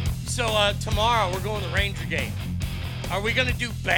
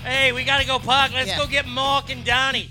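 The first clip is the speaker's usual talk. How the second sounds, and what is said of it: Bad put-on Boston accent. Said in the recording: “bad Boston accents”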